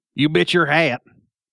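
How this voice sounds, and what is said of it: Put-on cowboy accent. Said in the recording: “we have to say it in our best cowboy accent”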